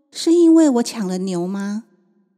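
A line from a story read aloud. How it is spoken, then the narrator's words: Plain. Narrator (Chinese): 勇气妈妈却说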